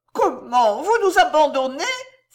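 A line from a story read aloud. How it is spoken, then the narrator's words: Exclaimed. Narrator (French): s'écria Balbine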